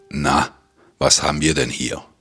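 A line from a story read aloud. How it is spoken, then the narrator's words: Deep hissing growl. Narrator (German): knurrte er, seine Stimme tief und zischend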